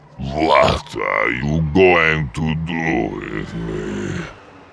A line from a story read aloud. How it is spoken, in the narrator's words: the Hook asked, slurring his words and struggling to keep his eyes open as sleep slowly dragged him down